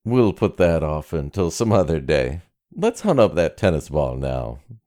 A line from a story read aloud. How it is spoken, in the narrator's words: laughed Jim Heddles